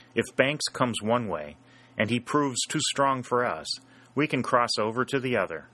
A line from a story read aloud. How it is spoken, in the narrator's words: said Sherburne